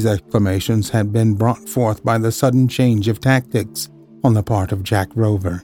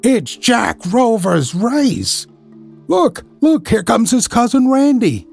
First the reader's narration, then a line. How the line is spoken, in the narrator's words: yelled Ned Lowe